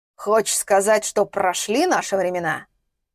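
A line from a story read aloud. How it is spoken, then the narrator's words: Skeptical snort. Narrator (Russian): Недоверчиво хмыкнул Ростислав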